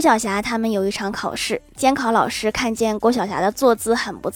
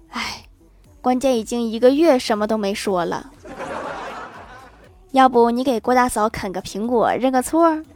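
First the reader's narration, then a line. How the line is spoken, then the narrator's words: Sighing. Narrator (Chinese): 郭大侠叹了一口气说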